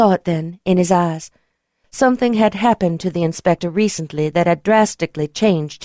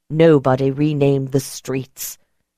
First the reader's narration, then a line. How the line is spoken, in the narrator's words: he growled